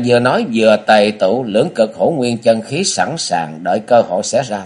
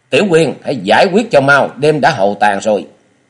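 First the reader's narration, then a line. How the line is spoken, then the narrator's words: Loud shout. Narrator (Vietnamese): quát to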